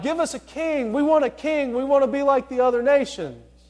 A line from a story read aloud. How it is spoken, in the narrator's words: the people of Israel were pleading with God